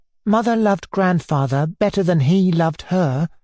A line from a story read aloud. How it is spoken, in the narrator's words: Nellie asserted, timidly but firmly